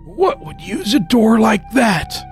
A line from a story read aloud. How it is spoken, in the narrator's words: I whispered